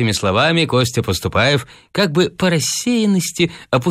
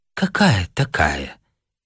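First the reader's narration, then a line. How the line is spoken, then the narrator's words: Quiet girl's voice. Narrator (Russian): тихо произнесла девушка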